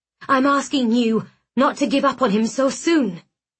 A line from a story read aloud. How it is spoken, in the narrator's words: I said, my voice shaking with desperation